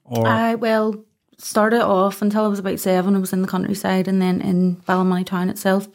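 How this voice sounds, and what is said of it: Mild Northern Irish accent. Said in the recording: “The accent's mellow for Ballymoney, hey?”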